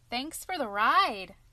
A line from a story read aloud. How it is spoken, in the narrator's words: Tom called merrily